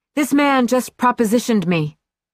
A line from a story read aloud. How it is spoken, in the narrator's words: she said loudly